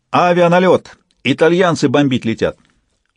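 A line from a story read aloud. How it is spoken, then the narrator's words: Shouted alarm. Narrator (Russian): караульный и крикнул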